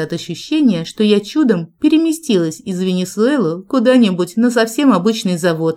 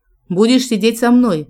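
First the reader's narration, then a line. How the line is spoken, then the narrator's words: Deep bass voice. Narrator (Russian): пробасил Джек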